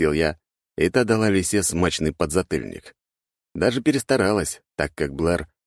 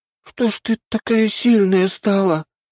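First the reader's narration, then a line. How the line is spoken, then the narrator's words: Hoarse wheeze. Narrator (Russian): прохрипела лисица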